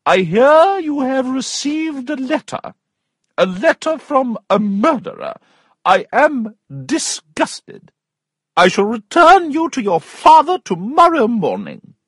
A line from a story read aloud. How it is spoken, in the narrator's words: her aunt cried